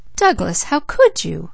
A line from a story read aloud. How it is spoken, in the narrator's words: exclaimed Leslie